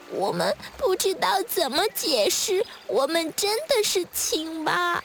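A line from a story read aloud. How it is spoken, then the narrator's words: Tearful tadpoles, very quiet. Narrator (Chinese): 小蝌蚪们哭哭啼啼地把刚才和小鹅的对话说了一遍，然后很小声地说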